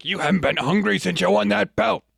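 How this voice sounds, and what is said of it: Weak Burgess Meredith impression. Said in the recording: “That wasn't a good Burgess Meredith impression”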